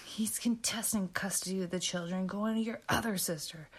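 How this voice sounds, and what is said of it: Vicious, nasty quoted tone. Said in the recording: “in this vicious voice”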